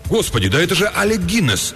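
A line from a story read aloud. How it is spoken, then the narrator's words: Sudden exclamation. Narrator (Russian): вдруг воскликнул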